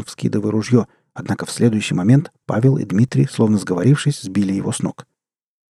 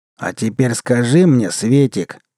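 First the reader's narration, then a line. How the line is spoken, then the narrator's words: Deep bass voice. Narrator (Russian): пробасил Егор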